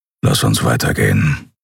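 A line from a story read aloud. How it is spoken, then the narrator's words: Grumbling. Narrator (German): brummte er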